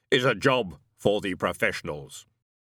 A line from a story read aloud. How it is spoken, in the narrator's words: he said firmly